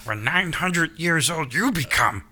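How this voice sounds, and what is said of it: Yoda voice impression. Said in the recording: “good impression”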